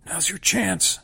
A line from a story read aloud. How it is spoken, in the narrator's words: Indrani whispers, looking stricken